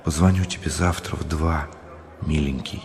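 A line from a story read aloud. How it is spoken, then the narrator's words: Whispered. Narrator (Russian): Людмила шепнула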